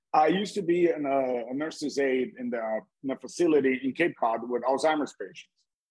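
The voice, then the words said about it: Brazilian accent. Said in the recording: “I'm from Brazil. My accent I have given it away a little bit.”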